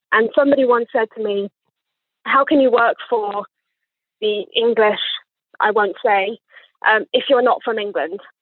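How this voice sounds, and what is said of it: Posh English accent. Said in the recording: “as you can hear from my accent, I was definitely born here ... I sound like a posh twat”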